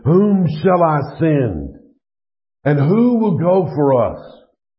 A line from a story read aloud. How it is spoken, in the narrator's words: The voice of the Lord thundered